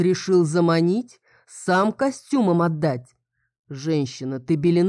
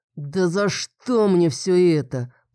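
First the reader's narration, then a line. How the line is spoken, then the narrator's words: Growling. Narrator (Russian): прорычал он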